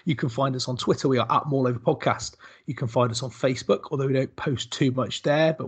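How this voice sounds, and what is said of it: West Country English accent. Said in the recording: “all with a West Country accent”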